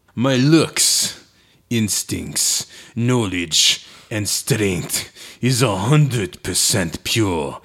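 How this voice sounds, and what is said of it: Put-on Russian accent. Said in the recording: “Now you sound Russian.”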